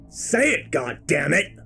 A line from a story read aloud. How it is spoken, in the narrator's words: I roar